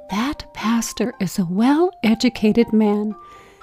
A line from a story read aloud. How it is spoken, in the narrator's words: whispered with a nod of approval